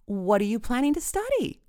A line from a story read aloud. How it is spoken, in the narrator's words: She asked, making her voice bright